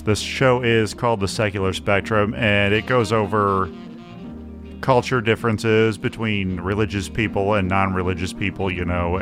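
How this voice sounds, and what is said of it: Rich radio-style voice. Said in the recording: “Check that voice out ... that's a great voice, man. ... That's a radio voice.”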